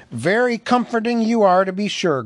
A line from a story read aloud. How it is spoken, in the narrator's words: growled Thorn